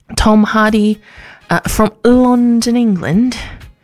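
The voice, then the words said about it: Bad put-on British accent. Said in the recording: “a really, really bad accent... I used to be better at a British accent, like a standard one”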